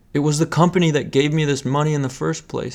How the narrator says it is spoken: yelled

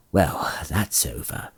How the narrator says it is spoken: he said in a low voice

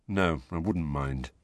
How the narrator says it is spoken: Harry mumbled

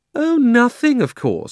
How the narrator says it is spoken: said Polly sarcastically

